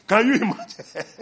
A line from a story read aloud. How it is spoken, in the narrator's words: I laugh